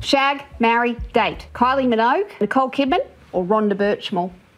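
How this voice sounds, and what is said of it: Heavy Australian accent. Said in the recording (Danish): “de meget tunge australske accenter”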